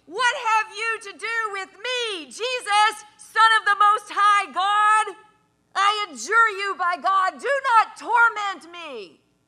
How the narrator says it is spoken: he shouted at the top of his voice

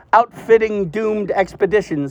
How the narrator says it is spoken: said

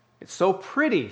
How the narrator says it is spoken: she exclaimed

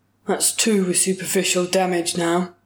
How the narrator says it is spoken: grunted

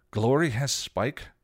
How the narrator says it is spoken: Buffy gasped

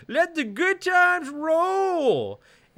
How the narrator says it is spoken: yells to the boys

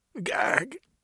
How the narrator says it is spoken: he cried out

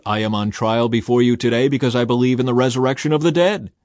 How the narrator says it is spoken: I shouted out

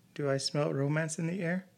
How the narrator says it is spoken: Vicki laughed

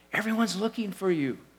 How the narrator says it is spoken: they exclaimed

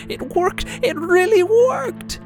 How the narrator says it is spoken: she screams

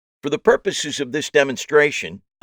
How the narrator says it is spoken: I said loudly so they could hear me from the back of the house

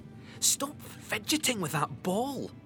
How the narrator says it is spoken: she whined

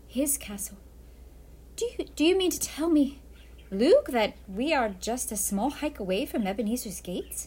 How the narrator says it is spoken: smiled Pirate Lydia nervously

